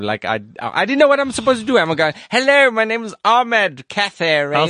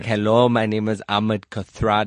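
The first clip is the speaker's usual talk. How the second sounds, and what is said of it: Strong accent with rolled r's. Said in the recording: “your accent can't be so strong ... you need to just tone it down a little bit ... It's too much, mate. You don't go rrr, go rrr, go just round it off ... It's still too much.”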